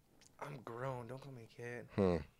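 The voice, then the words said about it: Voice cracking. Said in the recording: “my voice keeps cracking”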